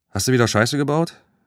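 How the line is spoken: Calling out. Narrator (German): rief Ramon

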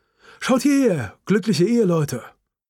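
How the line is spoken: Photographer calling out. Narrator (German): Ein Fotograf sprang herbei und rief

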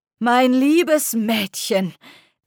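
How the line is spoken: Thundering tinny voice. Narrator (German): donnerte eine blecherne Stimme

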